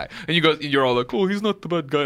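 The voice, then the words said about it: Imitates another person's voice. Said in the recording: “that your Neil impersonation?... Yeah, that's my Neil impersonation. Like pretty good, right? Nailed it”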